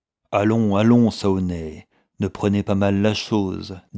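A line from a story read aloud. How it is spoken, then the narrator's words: Coaxing tone. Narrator (French): dit Carter d'un ton caressant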